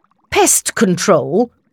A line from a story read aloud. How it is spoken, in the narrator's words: The doctor snorted his response